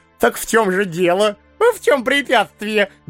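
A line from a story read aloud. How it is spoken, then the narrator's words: Friendly, joyful interruption. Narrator (Russian): дружелюбно и радостно перебил эмир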